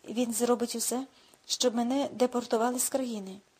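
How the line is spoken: Sad addition. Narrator (Ukrainian): сумно додала

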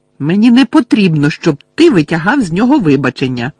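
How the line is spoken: Shout. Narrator (Ukrainian): крикнула Лілі

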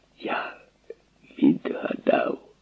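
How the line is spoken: Whispered. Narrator (Ukrainian): він прошепотів

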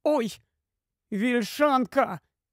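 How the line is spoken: Cry. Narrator (Ukrainian): скрикнула Люсі

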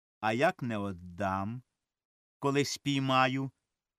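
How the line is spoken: Stern. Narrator (Ukrainian): суворо сказав Корній Іванович

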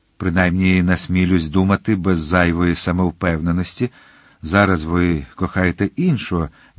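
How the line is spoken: Young man says tenderly. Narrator (Ukrainian): ніжно сказав юнак

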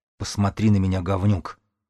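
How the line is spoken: Completely calm. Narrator (Russian): Васка говорил совершенно спокойно

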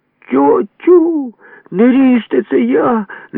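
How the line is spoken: Cry in strange voice. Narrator (Ukrainian): не своїм голосом скрикнув

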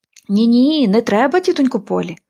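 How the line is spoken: Desperate exclamation. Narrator (Ukrainian): розпачливо вигукнула Поліанна

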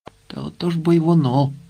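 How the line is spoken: Sighing. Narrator (Ukrainian): зітхнув Швайка

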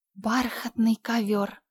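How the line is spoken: Delighted sigh. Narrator (Russian): вздохнула Энн восторженно

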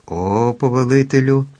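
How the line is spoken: Joyful exclamation. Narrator (Ukrainian): радісно вигукнула ведмежа шкура

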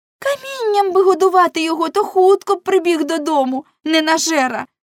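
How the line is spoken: Exclamation. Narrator (Ukrainian): вигукнула Неле

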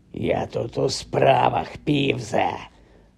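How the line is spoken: Hoarse. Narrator (Ukrainian): прохрипів Гаррі

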